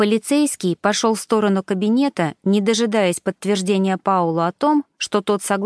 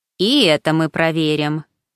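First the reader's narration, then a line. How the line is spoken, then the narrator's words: Snorting. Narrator (Russian): хмыкнул инспектор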